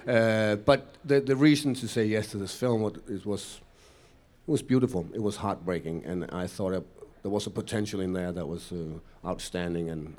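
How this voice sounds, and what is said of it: Foreign accent speaking English. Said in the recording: “probably because of the funny accent, I'm playing the bad guy over here”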